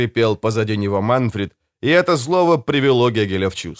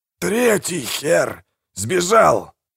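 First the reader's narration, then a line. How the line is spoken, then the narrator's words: Grating, breathless, halting words. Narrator (Russian): проскрежетал Манфред, которому было трудно выдавить между вдохами больше одного слова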